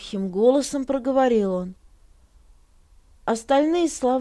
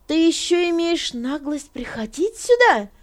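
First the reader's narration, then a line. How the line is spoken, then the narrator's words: Shouting. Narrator (Russian): закричала она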